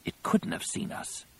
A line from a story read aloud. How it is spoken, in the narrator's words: Ganner whispered